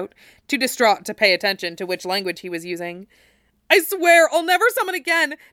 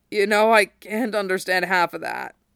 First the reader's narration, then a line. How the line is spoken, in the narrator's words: Zack rasped